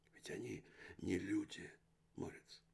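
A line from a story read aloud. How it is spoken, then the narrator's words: Whisper. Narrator (Russian): прошептал Корнелис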